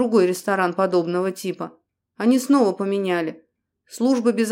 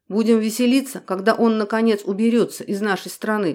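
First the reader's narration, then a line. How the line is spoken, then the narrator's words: Muttered. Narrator (Russian): пробормотал Дронго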